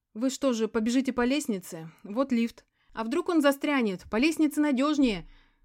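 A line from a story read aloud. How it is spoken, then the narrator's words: Shouted while moving. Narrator (Russian): уже на ходу крикнула я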